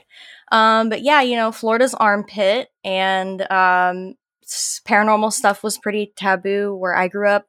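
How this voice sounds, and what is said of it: Southern US twang. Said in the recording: “Love that southern twang”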